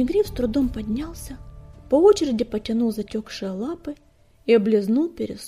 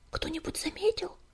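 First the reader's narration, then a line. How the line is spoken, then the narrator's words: Frightened whisper. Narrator (Russian): испуганным шепотом спросил он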